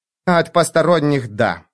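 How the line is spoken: Gruff female grumble. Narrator (Russian): буркнула она

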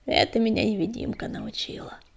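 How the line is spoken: Big man's flattered grumble. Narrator (Russian): польщенно заворчал серый здоровяк

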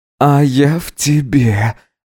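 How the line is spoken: Hoarse. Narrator (Russian): ответил хрипло Гидеон

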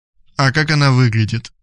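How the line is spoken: Gloomy question. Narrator (Russian): мрачно спросил Радислав

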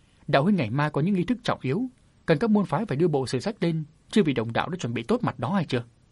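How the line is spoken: Smiling. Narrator (Vietnamese): Lai Như Long mỉm cười nói

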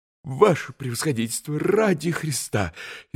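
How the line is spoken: Frightened plea, officer. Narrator (Russian): испуганно остановил штабс-капитан

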